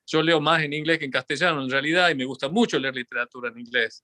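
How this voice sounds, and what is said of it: Argentine Tucumán Spanish accent. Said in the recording (Spanish): “sigo hablando con acento tucumano o con algún acento tucumano después de haber vivido 30 años en Estados Unidos”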